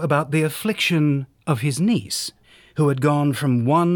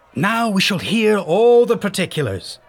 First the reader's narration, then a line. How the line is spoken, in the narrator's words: shouted the crowd